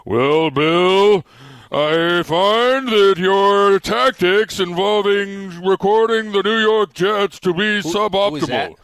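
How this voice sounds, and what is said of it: Snooty old-fashioned rich man voice. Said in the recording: “he sound like a good movie. A president from 1848? ... that's my snooty rich guy voice.”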